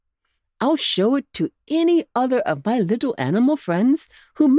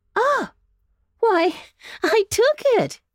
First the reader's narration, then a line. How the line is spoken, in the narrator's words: he cried